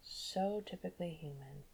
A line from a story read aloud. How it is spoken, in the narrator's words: Lucien muttered